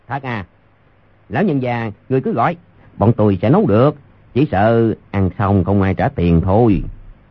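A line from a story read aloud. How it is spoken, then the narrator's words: Cold. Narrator (Vietnamese): Tiểu nhị lạnh lùng nói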